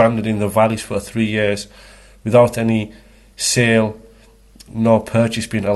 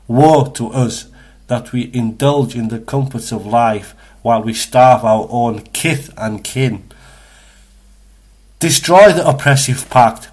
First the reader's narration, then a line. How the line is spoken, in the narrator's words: called out Al-Mut'im